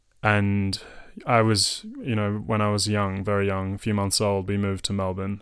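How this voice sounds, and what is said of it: Australian Melbourne accent. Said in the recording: “My accent is from Melbourne.”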